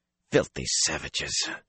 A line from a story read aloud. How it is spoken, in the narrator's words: he muttered